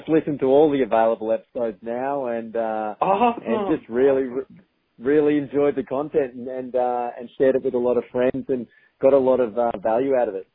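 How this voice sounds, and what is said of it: Australian accent. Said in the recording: “a good old Aussie accent”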